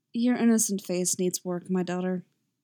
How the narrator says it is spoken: she murmurs

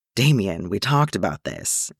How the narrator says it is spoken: Bruce sighed, already sounding weary to the bone

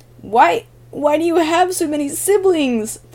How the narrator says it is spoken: Flash wheezed

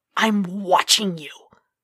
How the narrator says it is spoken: leaned forward, hissing

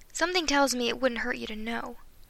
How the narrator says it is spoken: Marty sighed

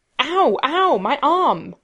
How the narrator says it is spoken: Rodney yelps

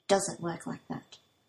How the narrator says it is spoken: Shindo adds softly

